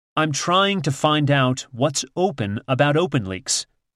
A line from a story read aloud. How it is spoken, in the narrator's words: says evenly